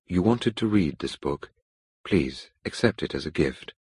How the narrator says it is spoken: said quietly

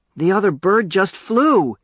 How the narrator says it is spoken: he yelled

